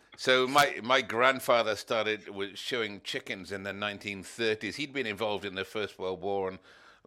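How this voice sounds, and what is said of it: Speaks with a distinct accent. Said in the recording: “it sounds better coming with your accent, too. ... if you say it, it sounds really good.”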